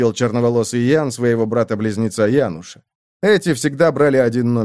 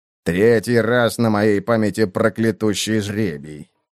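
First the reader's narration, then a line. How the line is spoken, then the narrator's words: Constant grumbling. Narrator (Russian): Бальд рядом со мной ворчал, не переставая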